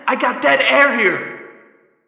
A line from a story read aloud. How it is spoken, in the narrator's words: Tobias yelled